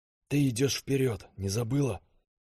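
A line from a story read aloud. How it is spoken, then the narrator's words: Young man whispering. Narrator (Russian): прошептал парень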